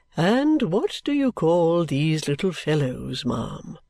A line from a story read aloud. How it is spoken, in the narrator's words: said he in his pleasant voice